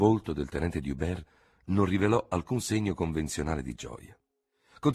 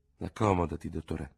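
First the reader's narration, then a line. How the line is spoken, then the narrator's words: Murmur. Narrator (Italian): mormorò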